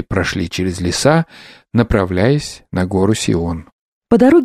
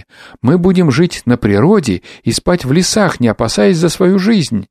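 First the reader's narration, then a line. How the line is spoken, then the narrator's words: Exclaimed in chorus. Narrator (Russian): все мы воскликнули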